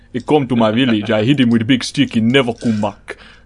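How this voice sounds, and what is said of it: Silly caveman-like character voice. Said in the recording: “I just like doing that voice. It's from like Zach Hadle doing the stupid da monkey.”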